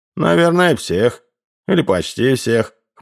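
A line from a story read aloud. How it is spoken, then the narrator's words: Snort. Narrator (Russian): хмыкнул Ловчий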